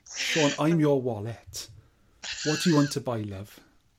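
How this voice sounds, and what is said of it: Soft Welsh accent. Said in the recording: “can you do a Welsh accent? ... What kind of Welsh accent would you like? ... the soft kind of one”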